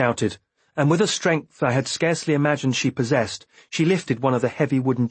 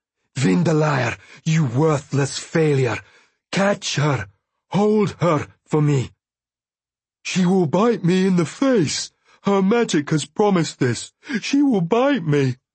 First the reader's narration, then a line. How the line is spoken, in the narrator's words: In between gasps, she managed